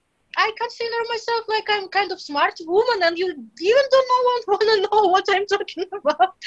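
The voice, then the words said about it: Russian-accented English. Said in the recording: “the Russian accent... my Russian accent”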